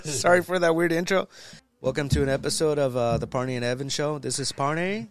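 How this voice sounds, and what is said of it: Scratchy, deep voice from a cold. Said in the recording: “my voice sounds. I know it's kind of scratchy ... it sounds hot ... I like my deep voice when I'm sick”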